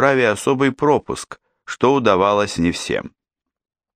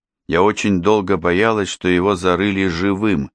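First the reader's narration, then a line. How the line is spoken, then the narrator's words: Plain. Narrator (Russian): говорит Инна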